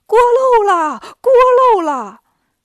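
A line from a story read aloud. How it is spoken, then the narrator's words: Shouting. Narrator (Chinese): 烧火的就喊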